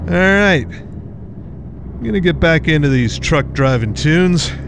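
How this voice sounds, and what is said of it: Country twang. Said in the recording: “I suddenly have a country twang”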